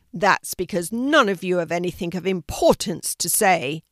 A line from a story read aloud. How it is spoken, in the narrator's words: roared the lion